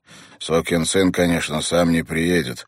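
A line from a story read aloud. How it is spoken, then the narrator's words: Muttered. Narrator (Russian): пробурчал он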